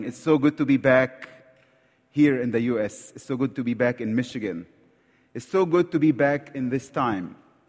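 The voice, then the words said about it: Egyptian accent in English. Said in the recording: “I hope you understand my accent. ... I talk like Egyptian, so English is second language to me”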